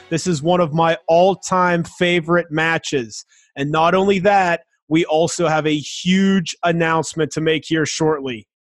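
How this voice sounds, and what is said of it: Excited, energetic delivery. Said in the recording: “hear the excitement in my voice?”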